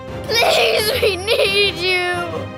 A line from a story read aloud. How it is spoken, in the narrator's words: He sobbed